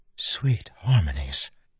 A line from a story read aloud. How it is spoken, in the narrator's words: the woman whispered